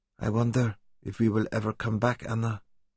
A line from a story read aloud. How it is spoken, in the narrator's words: Santan whispered